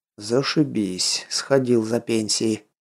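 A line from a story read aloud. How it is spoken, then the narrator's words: Muttering. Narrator (Russian): пробормотал Воронцов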